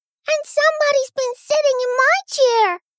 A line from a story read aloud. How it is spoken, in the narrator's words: squeaked the baby bear in his shrill little voice